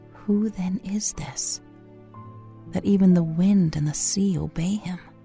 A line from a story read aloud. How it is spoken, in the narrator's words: Behind you, you can hear a disciple whisper to another